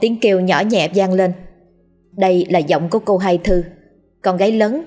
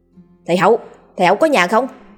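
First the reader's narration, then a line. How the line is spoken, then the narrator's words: Loud call. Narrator (Vietnamese): Gã lớn tiếng gọi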